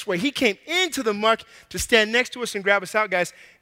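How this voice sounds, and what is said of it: Out of breath. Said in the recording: “I'm already out of breath.”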